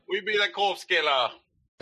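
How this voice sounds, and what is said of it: Bad put-on Jamaican accent. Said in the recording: “Bad Jamaican accents? ... Racially insensitive Corpse Killer accents.”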